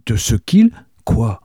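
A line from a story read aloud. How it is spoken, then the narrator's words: Troubled exclamation. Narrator (French): s'écria Catherine, d'un air troublé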